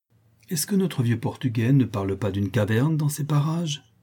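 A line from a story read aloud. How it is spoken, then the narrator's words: Sudden exclamation. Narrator (French): s'écria Gaud tout à coup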